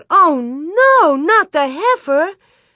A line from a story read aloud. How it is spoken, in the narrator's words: Mary cried out